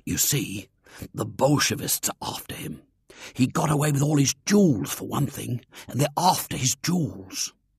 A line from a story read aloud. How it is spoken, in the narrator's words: William's voice sank to a sinister whisper